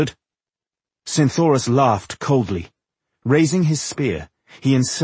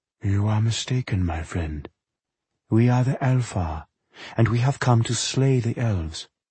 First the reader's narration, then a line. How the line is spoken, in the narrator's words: the voice said softly